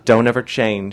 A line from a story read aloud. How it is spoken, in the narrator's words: she shouted at me